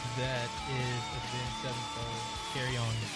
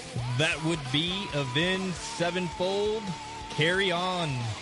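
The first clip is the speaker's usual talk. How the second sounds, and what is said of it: Punchy radio announcer voice. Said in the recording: “give me your announcer voice. Come on, punch it. ... That's a good punch.”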